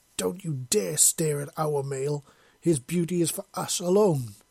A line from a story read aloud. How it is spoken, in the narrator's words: Tashara bellowed